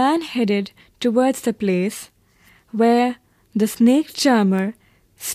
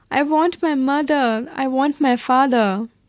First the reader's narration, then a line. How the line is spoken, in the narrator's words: The child's throat tore into a thousand shrill sobs and he only shouted